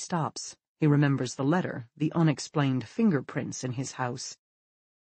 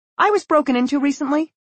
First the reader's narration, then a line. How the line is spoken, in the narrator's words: she says hastily